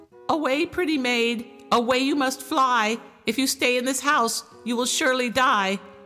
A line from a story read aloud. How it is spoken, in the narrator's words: a bird in a cage, and it called out